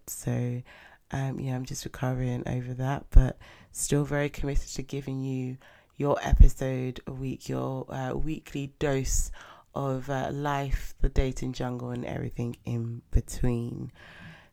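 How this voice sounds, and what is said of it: Congested voice with a cold. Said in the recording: “as you probably can hear, I've got a little bit of a cold.”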